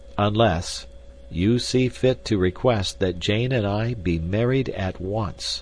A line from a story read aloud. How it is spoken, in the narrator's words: said Candler, slowly and distinctly